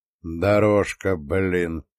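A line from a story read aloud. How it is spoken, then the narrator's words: Tense voice. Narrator (Russian): напряженным голосом молвил Юсупов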